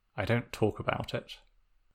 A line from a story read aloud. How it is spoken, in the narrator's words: Zuko muttered into Sokka's shirt